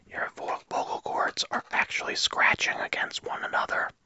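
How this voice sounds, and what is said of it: Whispering. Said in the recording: “Whispering. When you whisper like this”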